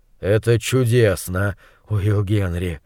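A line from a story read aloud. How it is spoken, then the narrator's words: Breathless, raised over buzzing. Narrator (Russian): выдохнул монстролог, заглушив сводящее с ума гудение мух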